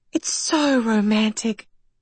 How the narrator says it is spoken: sighed Philippa

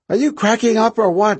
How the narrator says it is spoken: She shouted

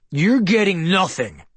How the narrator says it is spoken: Ryo bellowed

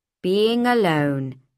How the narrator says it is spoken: she said

